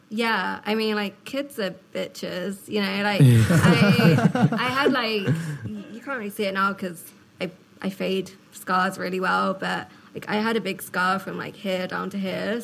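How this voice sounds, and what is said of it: Accent that sounds smart. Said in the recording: “you got that accent, which makes you sound pretty fucking smart.”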